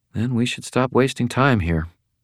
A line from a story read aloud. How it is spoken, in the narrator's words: Elaine said quietly